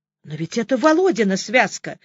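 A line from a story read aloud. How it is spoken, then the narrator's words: Exclamation. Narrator (Russian): воскликнул я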